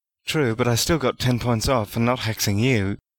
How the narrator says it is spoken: Harry laughed

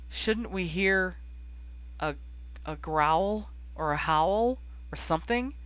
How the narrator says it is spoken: Ron asked, anxiously

